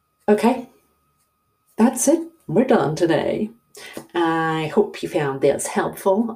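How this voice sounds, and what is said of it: Silly put-on voice. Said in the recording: “I don't know why I'm doing this stupid voice.”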